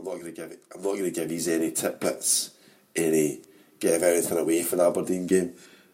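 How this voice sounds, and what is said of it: Weak, nearly lost voice. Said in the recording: “my voice has disappeared”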